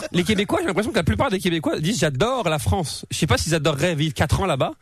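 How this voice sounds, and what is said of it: French accent, partly Québécois. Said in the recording (French): “pourquoi je reprends l'accent français maintenant? ... j'ai un accent entre les deux ... Je suis hybride.”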